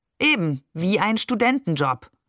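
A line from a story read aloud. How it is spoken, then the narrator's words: Plain. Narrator (German): sagte Barbe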